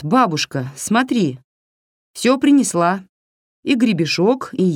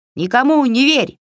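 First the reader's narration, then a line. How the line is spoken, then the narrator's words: Shout. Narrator (Russian): выкрикнула ягоша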